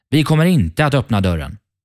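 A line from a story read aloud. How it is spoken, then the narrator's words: Young goats calling out. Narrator (Swedish): ropade killingarna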